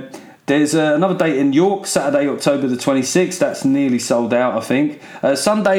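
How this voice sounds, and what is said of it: Usual voice. Nothing is said of it.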